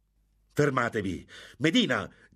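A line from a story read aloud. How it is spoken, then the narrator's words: Shouted. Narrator (Italian): gridò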